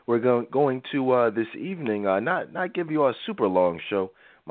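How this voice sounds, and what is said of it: Slightly raspy voice. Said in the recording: “I'm a little raspy tonight. I'm getting over a little cold”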